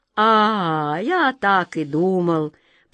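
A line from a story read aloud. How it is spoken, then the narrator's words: Nearly indifferent drawl. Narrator (Russian): почти равнодушно протянул Каргор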